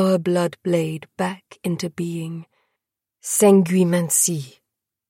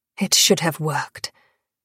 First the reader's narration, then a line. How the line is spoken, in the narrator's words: Selene snapped, impetuous, voice cutting the dark